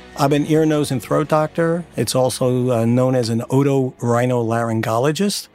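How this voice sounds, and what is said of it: Long Island New York accent. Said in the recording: “his own voice is pretty terrific. Long Island, New York accent, the best.”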